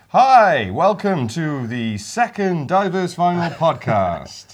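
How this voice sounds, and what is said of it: Polished radio presenter voice. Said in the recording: “radio voice”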